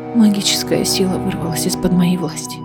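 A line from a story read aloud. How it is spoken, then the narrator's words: Hoarse. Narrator (Russian): хрипло ответила Аэлина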